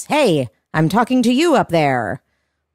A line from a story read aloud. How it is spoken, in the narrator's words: Topanga looks up at her and shouts